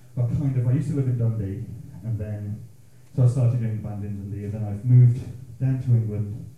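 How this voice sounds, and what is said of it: Thick Scottish accent. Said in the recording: “my thick Scots brogue”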